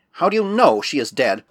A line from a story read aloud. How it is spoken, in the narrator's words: asked Bickley, in a sharp voice and speaking for the first time